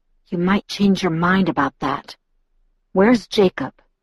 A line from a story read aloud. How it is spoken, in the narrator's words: I groaned and then whispered